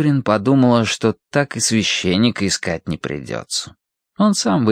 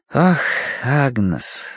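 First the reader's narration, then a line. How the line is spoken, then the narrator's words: Sighing. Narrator (Russian): вздохнула Киврин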